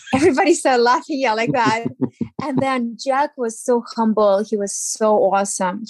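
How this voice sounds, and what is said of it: Speaks with an accent. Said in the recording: “with my accent”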